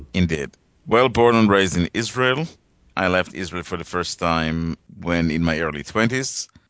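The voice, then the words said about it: Slight foreign accent. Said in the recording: “You have a little bit of an accent.”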